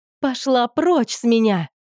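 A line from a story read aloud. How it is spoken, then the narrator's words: Shriek. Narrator (Russian): завизжала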